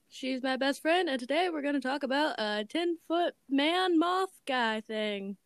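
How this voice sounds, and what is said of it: West Virginia accent. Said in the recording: “you could probably tell by our very nice accents, we're from West Virginia”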